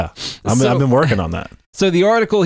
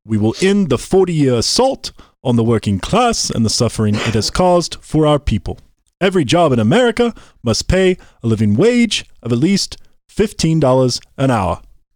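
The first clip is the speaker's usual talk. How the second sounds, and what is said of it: Imitates another person's voice. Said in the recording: “that was a good impression. ... talking Bernie”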